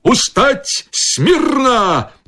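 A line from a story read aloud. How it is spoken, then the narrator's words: Shouted command. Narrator (Belarusian): Фельдфебель крыкнуў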